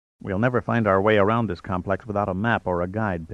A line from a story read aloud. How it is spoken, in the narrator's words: Pitt murmured